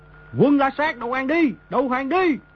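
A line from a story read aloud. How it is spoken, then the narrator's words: Thousands shouting in unison. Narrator (Vietnamese): tiếng mấy ngàn người đồng thanh quát lớn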